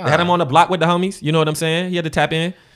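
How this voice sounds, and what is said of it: Put-on California twang. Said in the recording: “you trying to add a little California... You heard the twang. You heard that accent.”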